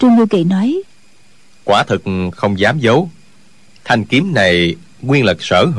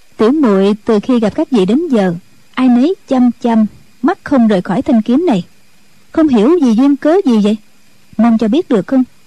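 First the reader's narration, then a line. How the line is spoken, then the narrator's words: Smiling. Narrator (Vietnamese): Triệu Mẫn mỉm cười, nói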